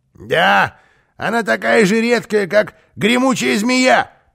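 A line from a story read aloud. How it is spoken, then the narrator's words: Grumbling. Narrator (Russian): проворчал Карлсон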